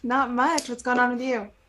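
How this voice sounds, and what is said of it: Slight Texas twang. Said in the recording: “a little bit of Texas twang”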